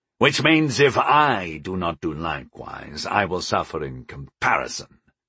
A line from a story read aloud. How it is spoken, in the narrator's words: Tavard said angrily